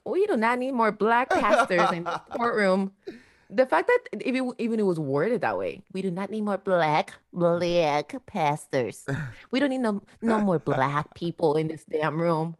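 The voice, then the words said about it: Imitates another person's accented voice. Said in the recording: “in his little accent”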